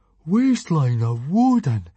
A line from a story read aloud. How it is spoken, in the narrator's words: exclaimed Fishlegs